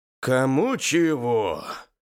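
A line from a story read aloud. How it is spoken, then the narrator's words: Exhausted but smiling. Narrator (Russian): измученным голосом, но с улыбкой на лице сказал Юрий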